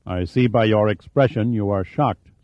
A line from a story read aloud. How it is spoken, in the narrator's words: said Bass